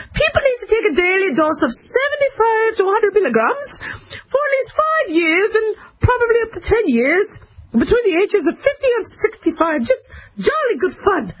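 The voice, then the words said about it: Mock British accent, not very good. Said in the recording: “I need to do it with the accent ... I love the British accent. I can speak that all day. I know that wasn't that good.”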